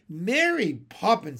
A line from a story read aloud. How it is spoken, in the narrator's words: he cried